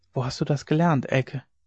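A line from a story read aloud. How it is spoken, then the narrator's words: Whisper across table. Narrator (German): flüsterte er über den Tisch hinüber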